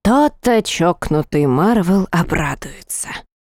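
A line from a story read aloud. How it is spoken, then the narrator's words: Sarcastic whisper. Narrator (Russian): с непередаваемым сарказмом прошептал Рид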